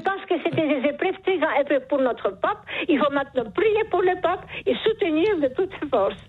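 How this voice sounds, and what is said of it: Charming foreign accent. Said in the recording (French): “Vous avez un charmant accent ... ce joli accent.”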